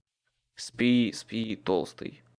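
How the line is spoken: Grumbled. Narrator (Russian): Буркнул я ему

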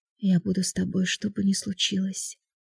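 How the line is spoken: Soft whisper. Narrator (Russian): тихо прошептала Аня

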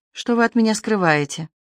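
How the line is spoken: Whispered in ear. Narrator (Russian): Мэри прошептала на ухо

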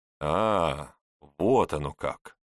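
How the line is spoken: Drawling young man. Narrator (Russian): протянул молодой человек

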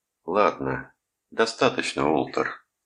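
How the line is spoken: Weary interruption. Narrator (Russian): устало прервал его Рудольф

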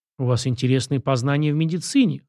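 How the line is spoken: Doctor's wry snort. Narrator (Russian): хмыкнул врач

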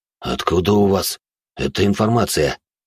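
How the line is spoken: Quiet question. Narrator (Russian): так же тихо спросил он меня

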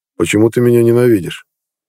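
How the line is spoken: Muffled question, suppressed rage. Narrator (Russian): глухо спросил Нед, сгорая от желания разорвать эту тварь на части

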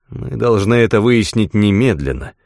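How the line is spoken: Gloomy. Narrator (Russian): мрачно произнес Говард

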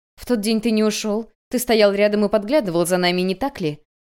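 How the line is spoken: Sharp question. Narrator (Russian): Вейнло резко спросила

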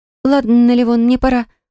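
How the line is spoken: Overly nervous tone. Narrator (Russian): проговорила Милана чересчур нервным тоном

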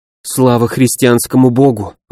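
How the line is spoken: Breathless exhale. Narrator (Russian): выдохнула Мирослава

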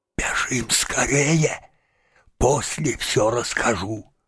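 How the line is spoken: Whisper. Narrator (Russian): шепнул

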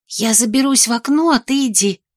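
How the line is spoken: Whispered under breath. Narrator (Russian): шепнула Мира вполголоса

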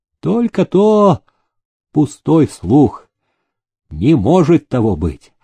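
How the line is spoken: Calm reply. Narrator (Russian): спокойно отозвался Раскольник

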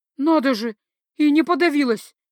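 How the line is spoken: Frightened breathy exhale. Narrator (Russian): Испуганно выдохнула я

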